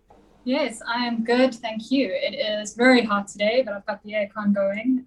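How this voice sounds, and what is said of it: South African accent. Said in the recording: “I hear an accent. Where's that from? ... South Africa.”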